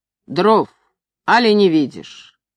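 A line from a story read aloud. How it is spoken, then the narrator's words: Rough, curt. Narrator (Russian): Мастер грубо сказал Ивану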